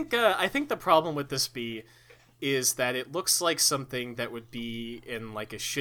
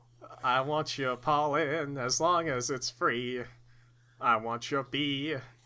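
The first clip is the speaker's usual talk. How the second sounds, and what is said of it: Strained parody singing voice. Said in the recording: “I can't do that with my voice the way it is. I'm actually going to die if I keep straining my voice like this.”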